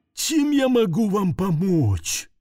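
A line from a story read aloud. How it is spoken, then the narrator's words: Drawling creaky voice. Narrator (Russian): тягуче проскрипел носильщик Пьер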